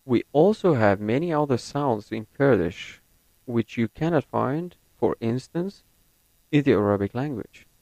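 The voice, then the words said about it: Non-native speaker, American-leaning English accent. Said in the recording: “my accent is more American than British”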